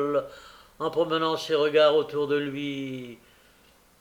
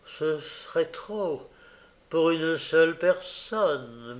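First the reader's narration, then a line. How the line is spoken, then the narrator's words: Woman murmuring. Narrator (French): murmura la dame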